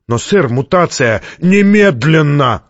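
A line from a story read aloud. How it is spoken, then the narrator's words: Shout. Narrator (Russian): крикнул Стратмор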